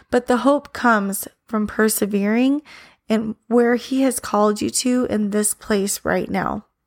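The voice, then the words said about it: Strained, fading voice. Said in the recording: “I'm sorry, I think I'm losing my voice a little bit”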